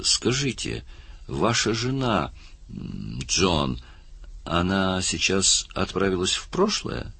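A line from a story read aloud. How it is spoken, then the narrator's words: Timid question, woman. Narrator (Russian): одна из женщин робко спросила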